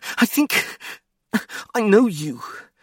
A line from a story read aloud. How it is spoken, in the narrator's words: the esquire panted